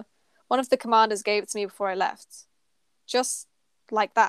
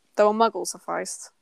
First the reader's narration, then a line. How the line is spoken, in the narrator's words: he mutters